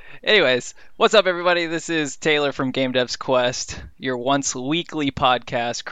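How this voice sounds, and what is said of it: Usual voice. Nothing is said of it.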